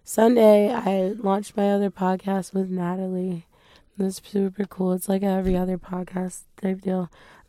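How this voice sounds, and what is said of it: Hoarse, strained voice. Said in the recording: “That's when I really started to lose my voice. ... I'm so dehydrated”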